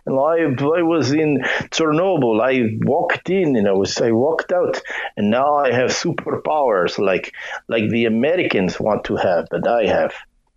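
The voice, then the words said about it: Bad put-on Russian accent. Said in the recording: “my really bad Russian imitation”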